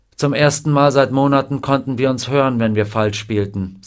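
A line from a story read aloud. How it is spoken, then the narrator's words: Sad. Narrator (German): sagte traurig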